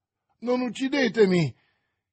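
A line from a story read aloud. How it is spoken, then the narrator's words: Bandit exclaiming. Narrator (Italian): esclamò il bandito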